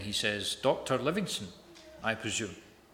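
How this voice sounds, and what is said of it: Put-on accent, best attempt. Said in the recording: “That was in the best accent I could put on”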